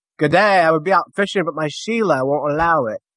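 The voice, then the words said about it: Bad put-on Australian accent. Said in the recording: “that is probably the worst accent I've ever heard ... Sounded like someone from bloody Birmingham”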